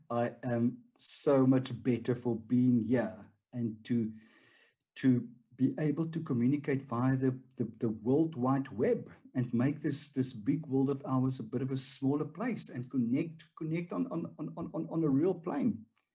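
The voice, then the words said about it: Afrikaans South African accent. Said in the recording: “the very beautiful, vibrant South African accent. And so um, Afri- Afrikaans South African accent.”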